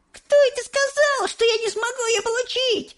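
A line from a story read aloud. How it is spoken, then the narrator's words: Shouted. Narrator (Russian): закричала Верука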